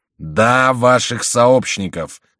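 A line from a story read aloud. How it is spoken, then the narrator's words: Loud repetition. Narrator (Russian): громко повторил король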